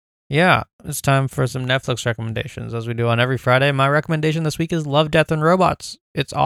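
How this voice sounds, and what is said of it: Usual voice. Nothing is said of it.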